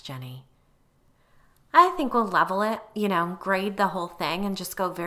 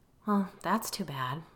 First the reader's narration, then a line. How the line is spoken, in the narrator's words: I said, managing to keep my tone even